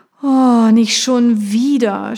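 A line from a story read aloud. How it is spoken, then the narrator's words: Groaned. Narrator (German): stöhnte Nicole auf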